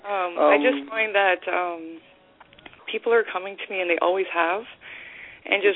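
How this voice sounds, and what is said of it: Nervous-sounding voice. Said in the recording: “hear it in my voice, but I actually get very nervous about this ... You sound very nervous.”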